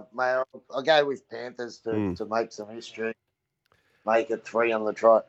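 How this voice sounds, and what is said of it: Strong Australian accent. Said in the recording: “this awful strong Aussie accent”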